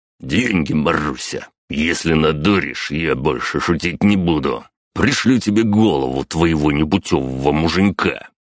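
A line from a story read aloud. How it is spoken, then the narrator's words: Growled. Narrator (Russian): он прорычал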